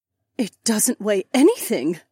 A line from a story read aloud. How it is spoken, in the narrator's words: the corporal gasped